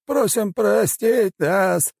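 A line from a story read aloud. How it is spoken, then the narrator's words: Old man's strained cry. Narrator (Russian): с трудом выкрикнул старик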